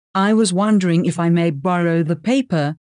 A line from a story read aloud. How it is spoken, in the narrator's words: I ask quickly